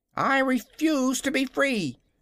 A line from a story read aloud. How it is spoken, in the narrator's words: cried the kitten in a sharp voice